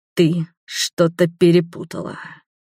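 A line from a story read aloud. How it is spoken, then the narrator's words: Hissing. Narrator (Russian): прошипел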